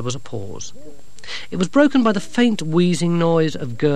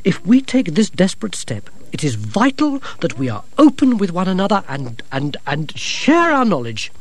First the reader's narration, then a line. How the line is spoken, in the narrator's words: said Gerda sharply